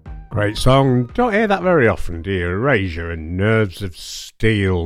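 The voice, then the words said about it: Slightly deepened voice from a cold. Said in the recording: “my cold seems to be getting better. My voice isn't quite as deep as it was last week.”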